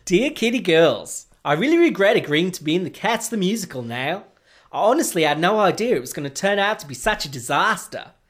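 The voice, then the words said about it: Attempted Australian accent. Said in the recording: “attempt to add to my list of failed accents. An Australian accent.”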